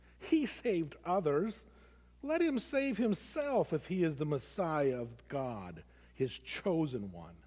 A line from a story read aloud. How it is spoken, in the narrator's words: the leaders scoffed at Jesus, saying